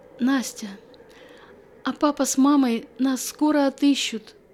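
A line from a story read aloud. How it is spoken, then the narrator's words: Hopeful child, tired of whimpering. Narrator (Russian): Устав хныкать, с надеждой в голосе спросил Вася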